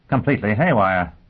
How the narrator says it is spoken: Dagenham said impatiently

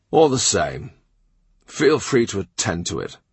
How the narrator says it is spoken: Henry murmurs

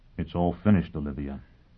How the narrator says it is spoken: he said gently

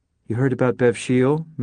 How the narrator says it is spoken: Millie whispered

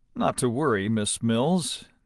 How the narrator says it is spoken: Deming told her dryly

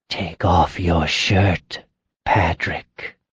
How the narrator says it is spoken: she said in a husky whisper

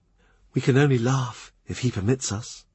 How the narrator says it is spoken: Gregory whisper

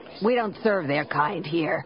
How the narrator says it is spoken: he snapped

